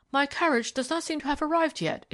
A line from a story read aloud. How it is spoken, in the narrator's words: exclaimed Mr